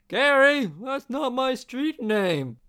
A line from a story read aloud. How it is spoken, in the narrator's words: the man yelled as he slapped the back of the businessman's head to let off a little bit of frustration